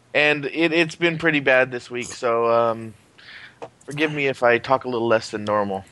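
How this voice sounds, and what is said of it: Quiet, slightly off voice. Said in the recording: “I'm a little quiet this week, or my voice is a little off. My allergies have been killing me”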